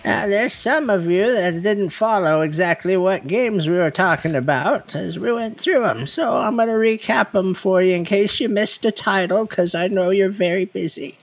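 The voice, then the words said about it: Old grandma character voice. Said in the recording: “in your grandma voice? ... goes old lady”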